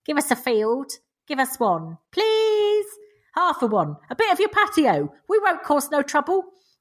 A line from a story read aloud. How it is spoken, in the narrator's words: like junkies begging for a quid, whining